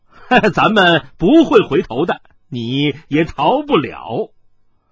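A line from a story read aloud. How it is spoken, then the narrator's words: Several voices laughing together. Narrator (Chinese): 三个人一起大笑道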